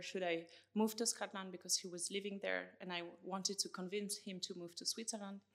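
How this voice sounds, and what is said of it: French accent. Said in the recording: “as you can hear from my accent, it's easy to guess. I'm from France”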